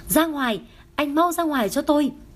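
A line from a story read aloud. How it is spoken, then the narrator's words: Panicked, screaming. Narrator (Vietnamese): Theo phản xạ, cô miệng không ngừng hét lên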